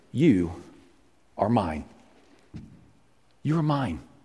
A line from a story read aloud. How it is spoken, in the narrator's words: God tenderly whispered